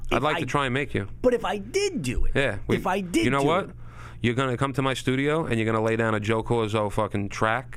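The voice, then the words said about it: Long Island accent. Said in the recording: “my Long Island accent”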